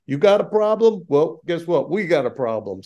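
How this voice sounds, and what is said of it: Put-on New York accent. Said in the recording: “the New York answer or accent”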